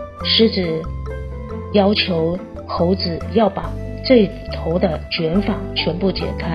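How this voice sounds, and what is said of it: Usual voice. Nothing is said of it.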